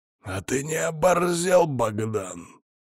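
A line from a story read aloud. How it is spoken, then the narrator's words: Growl. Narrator (Russian): зарычал Сивый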